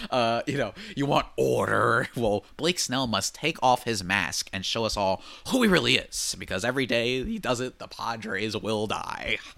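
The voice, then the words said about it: Imitates the Joker character's voice. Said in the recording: “I went Joker mode ... my Joker impression”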